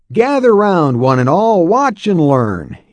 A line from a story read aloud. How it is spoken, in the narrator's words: yelled the young man